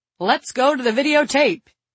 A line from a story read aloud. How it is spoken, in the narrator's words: he yelled cheerily